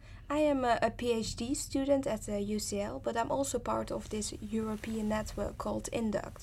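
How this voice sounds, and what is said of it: Dutch accent. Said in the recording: “as you might have heard from my accent, I'm originally from the Netherlands”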